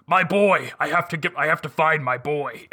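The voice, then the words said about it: Gruff Kratos impression. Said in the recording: “his best Kratos impression”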